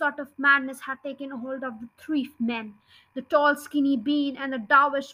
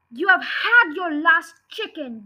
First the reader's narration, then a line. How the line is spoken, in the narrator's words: yelled Bogus